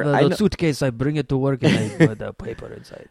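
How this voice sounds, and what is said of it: Put-on stereotyped Japanese accent. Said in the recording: “doing the voice ... To the horrible racist Japanese man”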